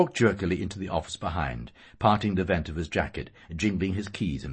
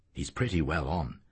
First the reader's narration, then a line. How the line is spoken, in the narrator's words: Professor McHugh said in a low voice